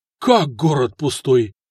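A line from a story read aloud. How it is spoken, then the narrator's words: Confused muttering under breath. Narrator (Russian): растерянно пробурчал себе под нос граф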